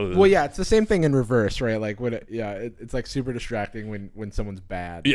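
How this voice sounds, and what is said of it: Usual voice. Nothing is said of it.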